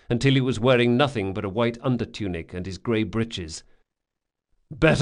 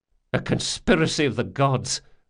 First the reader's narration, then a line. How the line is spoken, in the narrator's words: Locke muttered